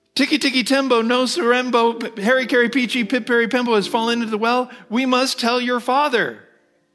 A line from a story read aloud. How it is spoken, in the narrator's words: Alarmed, mother cried